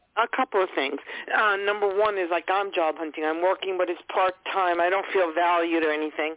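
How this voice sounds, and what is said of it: New York accent. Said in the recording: “I love that accent. It's so cool... So I love New York accents.”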